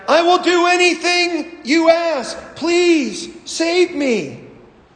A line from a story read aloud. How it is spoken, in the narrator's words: The man yelled back